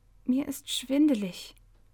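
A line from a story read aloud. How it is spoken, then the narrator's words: Weak faint voice. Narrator (German): antwortete Kahit mit matter Stimme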